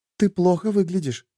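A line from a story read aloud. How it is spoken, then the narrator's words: Whispered. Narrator (Russian): прошептала Шерри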